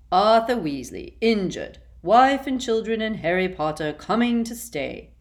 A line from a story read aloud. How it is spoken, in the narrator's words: repeated Phineas in a bored voice